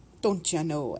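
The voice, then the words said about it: Exaggerated Minnesotan accent. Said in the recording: “I'm getting a bit of a Minnesotan accent now. My bad Minnesotan accent, I gotta say. ... the Minnesotan accent is basically what people think us Canadians sound like”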